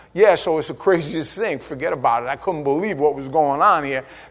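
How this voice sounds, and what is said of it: Put-on New York accent. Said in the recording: “oh, he's a New Yorker”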